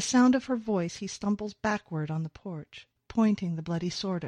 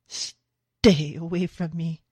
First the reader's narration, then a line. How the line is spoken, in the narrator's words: gasps